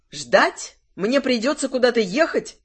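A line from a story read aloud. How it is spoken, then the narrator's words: Exclamation. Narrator (Russian): воскликнула Мелисандра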